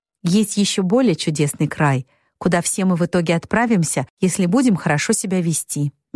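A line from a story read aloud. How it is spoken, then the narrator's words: Sweet little voice. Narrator (Russian): милым голоском отвечала Мэг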